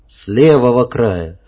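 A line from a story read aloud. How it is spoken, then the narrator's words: Plain. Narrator (Russian): ответил Андрей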